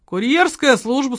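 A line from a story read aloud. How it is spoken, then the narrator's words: Worried voice. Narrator (Russian): он проговорил озабоченным голосом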